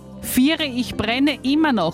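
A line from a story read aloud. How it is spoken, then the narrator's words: Screaming. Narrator (German): schrie der Hase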